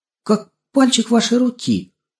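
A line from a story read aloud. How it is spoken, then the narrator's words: Embarrassed stammer. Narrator (Russian): наконец пролепетал он, сильно смутившись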